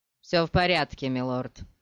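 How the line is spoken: Rather dry. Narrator (Russian): ответил Корба довольно сухо

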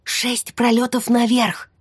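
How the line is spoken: Whispered. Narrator (Russian): прошептала я

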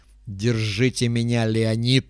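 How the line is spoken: Hissing. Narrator (Russian): прошипел он

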